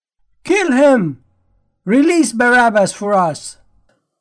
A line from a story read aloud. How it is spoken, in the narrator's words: the whole crowd cried out together